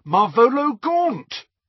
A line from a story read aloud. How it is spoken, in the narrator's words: A filthy old man ... he cried aloud